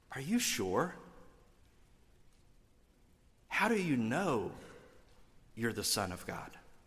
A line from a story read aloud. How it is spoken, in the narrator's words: the devil is whispering in Jesus' ear